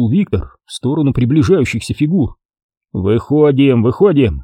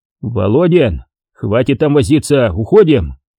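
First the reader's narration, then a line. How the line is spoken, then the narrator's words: Barking shout. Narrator (Russian): рявкнул в открытую дверь Виктор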